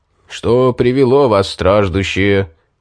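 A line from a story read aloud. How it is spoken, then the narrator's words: Booming trumpet-like voice. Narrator (Russian): трубным голосом вопросил он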